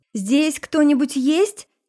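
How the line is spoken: Shouting. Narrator (Russian): крикнула

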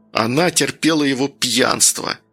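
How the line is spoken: Hurt, through teeth. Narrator (Russian): процедил Данил, от обиды

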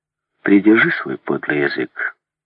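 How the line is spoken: Calm. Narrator (Russian): спокойно ответила леди Брэндон

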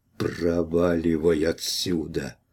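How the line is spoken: Hoarse rasp. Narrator (Russian): прохрипел

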